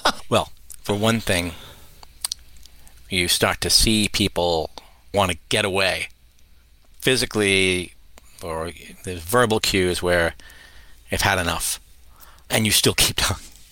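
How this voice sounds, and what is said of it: Measured public-radio interviewer voice. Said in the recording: “my NPR voice. It's a very measured tone.”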